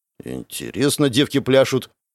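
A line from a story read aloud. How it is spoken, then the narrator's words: Grumbled. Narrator (Russian): пробурчал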